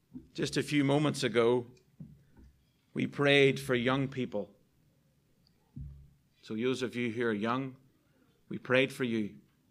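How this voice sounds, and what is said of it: Speaker's own noticeable accent. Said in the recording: “sometimes my accent does me no favors”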